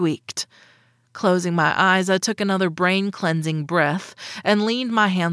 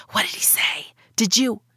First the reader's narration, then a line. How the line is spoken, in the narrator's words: whispering